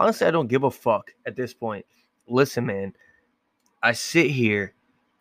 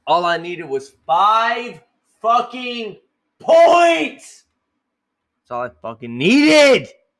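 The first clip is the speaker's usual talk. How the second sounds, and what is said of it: Angry yelling. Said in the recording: “Sorry for yelling. Probably broke your eardrum.”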